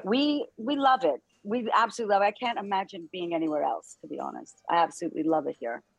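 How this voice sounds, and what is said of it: American accent. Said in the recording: “You don't sound British... It's good to keep your accent. I like the American accent anyway. So there's something about it. I find it quite peaceful.”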